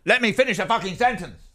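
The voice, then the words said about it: Angry shouted impression of another person. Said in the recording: “I think you're very angry ... doing an impression”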